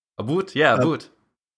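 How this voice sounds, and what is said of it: Weak put-on Canadian accent. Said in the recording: “I just can't do the Canadian thing really too well ... my impression”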